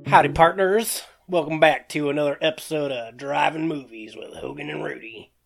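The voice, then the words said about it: Bad put-on Western cowboy accent. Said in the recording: “my horrible Western accent”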